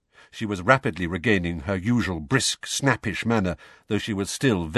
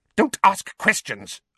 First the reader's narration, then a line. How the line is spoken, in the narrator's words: Aunt Petunia snapped